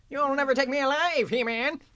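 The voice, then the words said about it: Skeletor impression. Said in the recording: “Really good impression ... your Skeletor impression”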